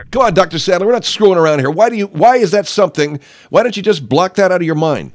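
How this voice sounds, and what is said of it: Yelling, raised voice. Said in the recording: “you're yelling at me. ... Yeah, I was yelling at you.”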